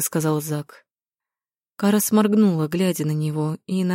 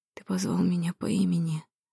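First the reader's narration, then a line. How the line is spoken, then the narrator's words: Whispered. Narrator (Russian): прошептала Кара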